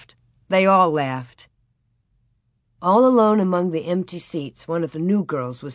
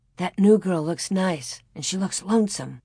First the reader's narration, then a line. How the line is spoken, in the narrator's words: Laura said in a low voice